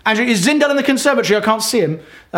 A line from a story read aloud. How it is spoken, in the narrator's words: Rachel, my wife, shouts and says